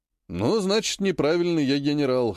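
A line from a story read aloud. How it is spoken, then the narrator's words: Wry snort. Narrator (Russian): хмыкнул Вершинин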